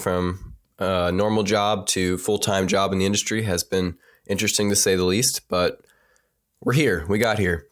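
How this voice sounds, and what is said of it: Deep, stuffy congested voice. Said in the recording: “apologize for my voice ... I think I lowered my octave again. I think our voice is getting deeper ... I'm a little stuffy”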